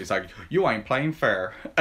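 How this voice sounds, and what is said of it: Attempted Midwestern American accent. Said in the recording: “oh, I can't do a Midwestern accent.”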